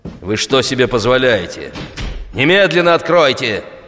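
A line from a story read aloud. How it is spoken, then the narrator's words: Angry yell. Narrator (Russian): заорал Минкин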